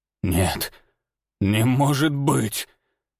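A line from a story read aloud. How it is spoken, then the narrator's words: Hoarse rasp. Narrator (Russian): прохрипел он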